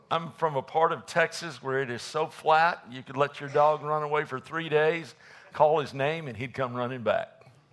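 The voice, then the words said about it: Texan accent. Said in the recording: “can y'all listen to a Texan? ... I sound different.”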